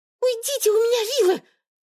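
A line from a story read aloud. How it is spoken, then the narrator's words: Muffled squeak through door. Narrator (Russian): пискнула девушка из-за двери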